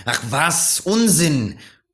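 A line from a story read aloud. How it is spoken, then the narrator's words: Shouting back. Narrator (German): schrie zurück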